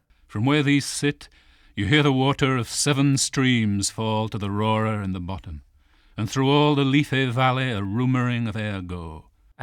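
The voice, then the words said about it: Northern English accent. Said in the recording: “his voice is pretty consistent over a career much longer than Plath's ... You can hear his accent come through ... more tousled and northern, a little like Hughes”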